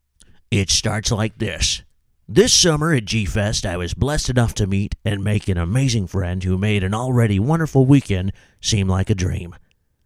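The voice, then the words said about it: Imitates another person's voice, badly. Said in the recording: “I'm going to do a terrible Casey Kasem impersonation”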